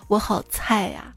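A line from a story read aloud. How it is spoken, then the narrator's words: Faint distant sighing. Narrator (Chinese): 隐隐约约听到殿堂内那些人传来的叹息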